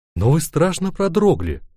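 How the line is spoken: Exclaiming. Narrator (Russian): воскликнула она

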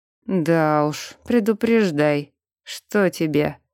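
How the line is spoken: Grumbling demon warrior. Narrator (Russian): Недовольно пробурчал демон-воин

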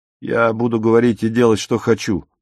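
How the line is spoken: Plain. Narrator (Russian): ответил Отто

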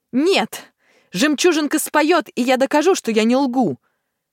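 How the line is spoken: Woman shouting. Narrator (Russian): закричала Ясмина

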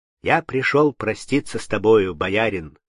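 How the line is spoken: Plain. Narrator (Russian): сказал он

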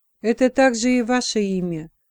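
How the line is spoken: Very quiet. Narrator (Russian): очень тихо отозвался епископ

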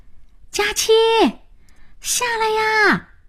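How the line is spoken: Calling. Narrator (Chinese): 老白叫

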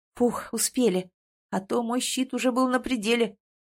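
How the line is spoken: Tired exhale. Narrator (Russian): устало выдохнул эльф

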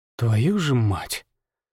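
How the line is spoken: Exhaled. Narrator (Russian): Выдохнул я

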